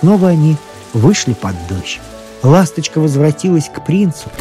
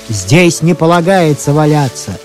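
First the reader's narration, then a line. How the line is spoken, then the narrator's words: Angry shout. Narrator (Russian): закричал на них сторож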